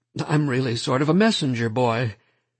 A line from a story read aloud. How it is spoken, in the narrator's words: he laughed nervously